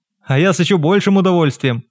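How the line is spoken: Laughing. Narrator (Russian): засмеялась Вероника

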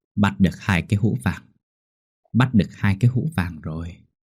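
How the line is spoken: Muttering to himself. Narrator (Vietnamese): Ông Thành một mình lẩm bẩm

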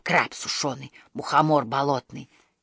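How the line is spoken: Barely audible babbling. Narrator (Russian): Едва слышно лепетал рыбий ног

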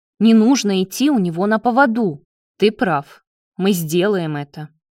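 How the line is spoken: Resolute tone. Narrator (Russian): решительным тоном ответил Давид

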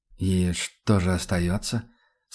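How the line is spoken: Melancholy question. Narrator (Russian): спросил Рудольф тоскливо

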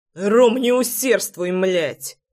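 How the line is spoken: Barked. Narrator (Russian): Рявкнул я

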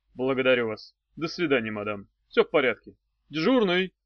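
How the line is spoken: Icy tone. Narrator (Russian): Я сказал ледяным тоном

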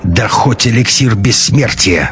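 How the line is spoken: Angry hiss. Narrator (Russian): зло прошипел он

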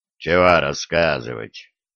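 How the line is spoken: Gloomy grumble. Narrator (Russian): хмуро пробурчал Ванька Левша

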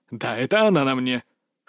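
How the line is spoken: Laughing. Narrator (Russian): Салтыков рассмеялся

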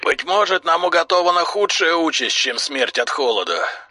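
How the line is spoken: Hoarse voice. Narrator (Russian): хрипло сказал Дрил

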